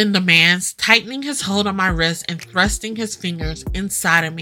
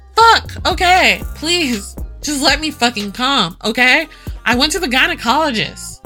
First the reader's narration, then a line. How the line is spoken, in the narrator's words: I yell through tears